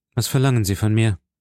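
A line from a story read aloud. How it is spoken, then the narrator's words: Plain. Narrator (German): sagte er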